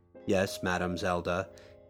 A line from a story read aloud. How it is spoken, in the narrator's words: said in a monotonous tone